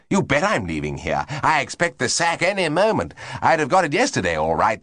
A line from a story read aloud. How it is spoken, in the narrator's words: said Monty with another chuckle